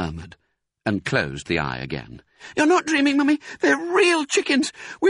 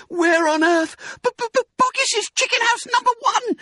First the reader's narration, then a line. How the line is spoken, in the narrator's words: spluttered the small fox